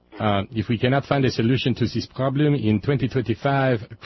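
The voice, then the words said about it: Put-on foreign accent. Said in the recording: “I'm giving him this accent because his first name is Luke, L-U-C, Luke.”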